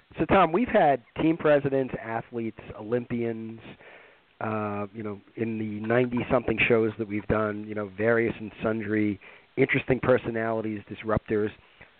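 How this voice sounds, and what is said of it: Nasal, congested voice. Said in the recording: “I hear a little bit of a nasally voice. I guess you picked up a cold”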